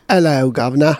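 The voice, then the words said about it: Bad put-on British accent. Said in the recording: “my horrible British accent ... See, that's horrible ... even that's not great”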